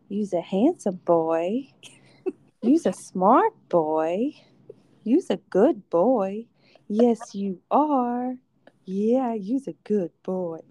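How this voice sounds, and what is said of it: Slight southern accent, pet-talk voice. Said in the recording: “You somehow gain like a slight southern accent in there too.”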